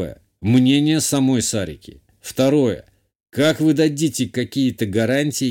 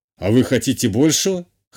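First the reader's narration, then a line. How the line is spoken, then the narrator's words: Smirking grunt. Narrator (Russian): хмыкнул канцлер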